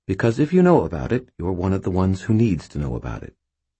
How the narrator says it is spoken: she replied calmly

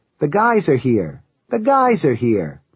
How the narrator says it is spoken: Maddie cried, laughing

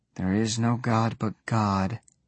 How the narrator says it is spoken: muttered

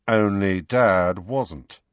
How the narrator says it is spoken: said Fred grimly

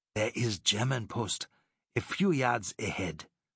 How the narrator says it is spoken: he whispered

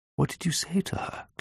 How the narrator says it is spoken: Claudia asked me quietly

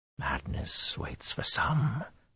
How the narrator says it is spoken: Luz Theron whispered

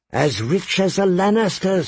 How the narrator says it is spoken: he wheezed

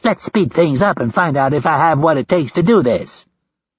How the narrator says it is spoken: in a falsetto voice designed to mimic Rapp, said

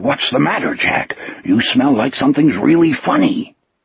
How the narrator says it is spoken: Wolf whispered hoarsely

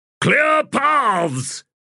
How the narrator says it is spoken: the captain bellowed

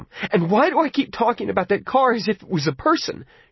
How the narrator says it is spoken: She cried out

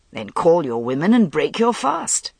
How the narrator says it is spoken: Vivian said impatiently

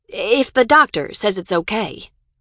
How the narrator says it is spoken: I added hastily

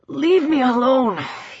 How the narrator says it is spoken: he wheezed thinly

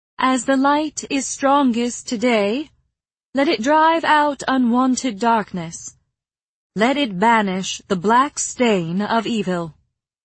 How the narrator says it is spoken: intoned

